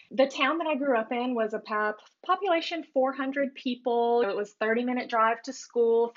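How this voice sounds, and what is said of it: Southern Alabama accent. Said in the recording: “I actually grew up in rural Alabama, close to the Florida line. I'm sure you can hear that. I'm trying to let the accent go a little flatter, but I guess I'm still a Bama girl deep down.”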